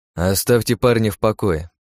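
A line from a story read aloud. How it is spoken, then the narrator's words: Grumbling. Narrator (Russian): проворчал я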